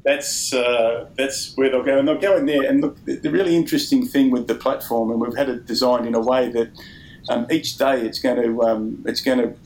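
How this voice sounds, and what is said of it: Australian accent. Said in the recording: “an Australian way to spell humanovation ... I hope my accent works there”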